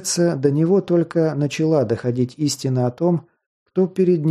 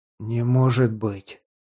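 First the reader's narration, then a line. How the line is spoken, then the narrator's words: Breathless exclamation. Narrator (Russian): выдохнул председатель Захар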